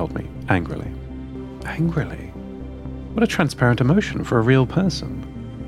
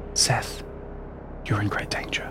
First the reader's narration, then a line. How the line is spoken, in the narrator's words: asked very quietly, then whispered